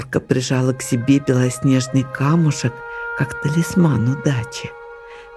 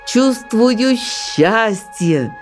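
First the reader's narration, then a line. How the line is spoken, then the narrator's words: Loud delighted shout, young eaglet. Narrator (Russian): Зажмуриваясь от удовольствия, громко выкрикнул беркутенок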